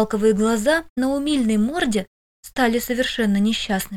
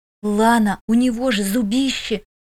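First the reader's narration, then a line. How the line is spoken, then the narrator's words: Little ice-floe hissing. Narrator (Russian): зашипела льдинка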